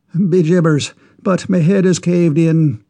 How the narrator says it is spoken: exclaimed the Irishman

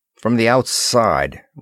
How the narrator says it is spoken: grumbled Moore

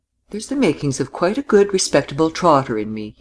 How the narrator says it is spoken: he laughed

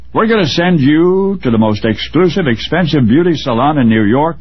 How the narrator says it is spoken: they announced triumphantly

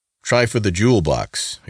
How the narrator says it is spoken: exclaimed Reuben

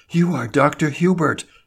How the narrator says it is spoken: she gasped

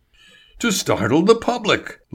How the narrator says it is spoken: Label cried

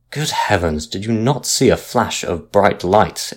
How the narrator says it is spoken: exclaimed the captain angrily, for he thought he was being made a fool of

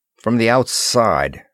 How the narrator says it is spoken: grumbled Moore

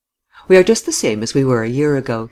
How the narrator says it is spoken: he laughed

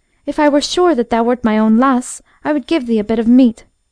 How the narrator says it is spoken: she exclaimed

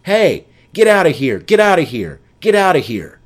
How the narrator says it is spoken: The captain or first officer could be heard shouting

